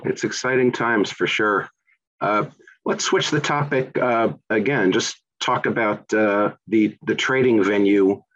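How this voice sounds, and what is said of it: New York accent. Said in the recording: “from my accent and my background, I'm in New York”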